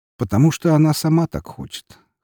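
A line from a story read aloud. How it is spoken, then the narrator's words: Snorting. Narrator (Russian): хмыкнул Молотов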